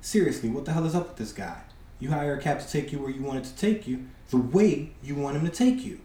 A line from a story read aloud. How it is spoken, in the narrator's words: He whispers to Luke